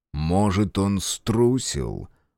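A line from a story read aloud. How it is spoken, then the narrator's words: Cold remark. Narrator (Russian): холодно заметил Фергус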